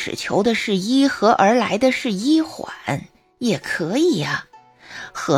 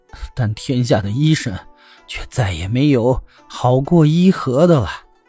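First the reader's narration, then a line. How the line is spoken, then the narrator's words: Tearful sigh. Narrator (Chinese): 王孙流着泪叹息道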